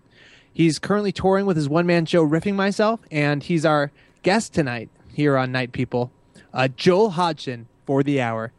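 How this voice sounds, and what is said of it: Imitates another person's voice. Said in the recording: “my Charlie Rose impression.”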